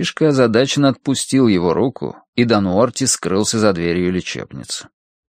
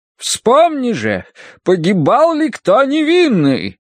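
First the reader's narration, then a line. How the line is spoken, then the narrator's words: Thundering. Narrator (Russian): прогремела она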